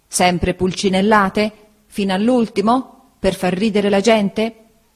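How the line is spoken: Exclamation. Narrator (Italian): esclamò

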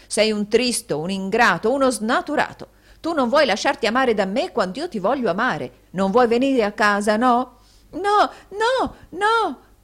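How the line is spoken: Shouted while backing away. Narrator (Italian): gridò Smike retrocedendo

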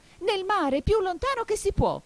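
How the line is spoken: Wild excited yell. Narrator (Italian): urlò il grifone saltando come un matto

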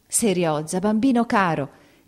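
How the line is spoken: Choked exclamation. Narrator (Italian): ella esclamò, soffocando

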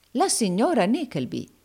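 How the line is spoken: Exclaiming. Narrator (Italian): esclamò il baronetto Malberry Hawk

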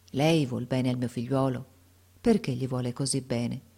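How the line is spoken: Sad, affectionate voice. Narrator (Italian): gli disse con voce triste e affettuosa

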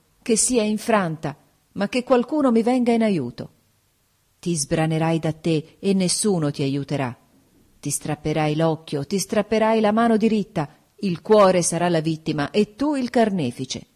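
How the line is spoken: Exclaimed. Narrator (Italian): esclamai

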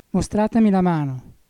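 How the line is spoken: Trembling, sighing. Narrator (Italian): disse tremando e sospirando

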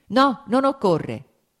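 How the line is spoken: Shouted again quickly. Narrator (Italian): gridò subito di nuovo

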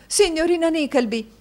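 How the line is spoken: Shouted. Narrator (Italian): gridò a quel rumore Madama Mantalini

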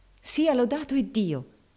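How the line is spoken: Woman exclaiming. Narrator (Italian): esclamò la signora Shelby

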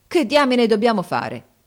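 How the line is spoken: Exclaimed. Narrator (Italian): esclamò Harris

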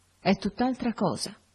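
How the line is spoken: Murmured. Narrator (Italian): mormorò

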